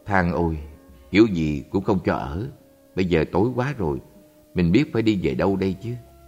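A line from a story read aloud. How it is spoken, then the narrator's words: Sad, sighing. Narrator (Vietnamese): Thầy ta buồn bã thở dài nói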